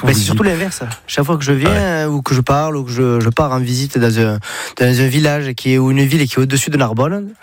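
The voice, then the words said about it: Sing-song southern French accent. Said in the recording (French): “vous venez pas du nord de la France ... l'accent, j'ai le package ... c'est chantant ça ... Toi, t'es du sud.”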